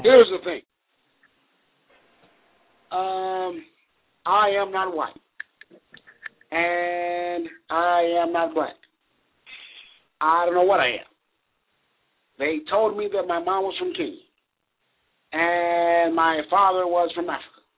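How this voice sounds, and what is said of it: Barack Obama impression. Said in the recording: “my Baraki accent”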